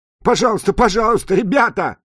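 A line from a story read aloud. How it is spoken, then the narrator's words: Screaming while being beaten. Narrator (Russian): закричал Джуди под ударами, сыпавшимися на его голову и плечи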